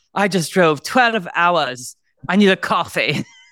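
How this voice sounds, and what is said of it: Bad imitated accent. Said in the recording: “I know that accent is bad.”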